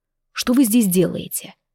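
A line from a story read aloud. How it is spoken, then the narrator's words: Icy questioning tone. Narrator (Russian): ледяным тоном спросил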